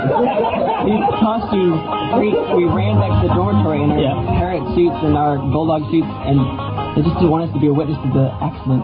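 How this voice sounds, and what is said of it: Texan accent. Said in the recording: “I can listen to this man all day. I like his Texan accent.”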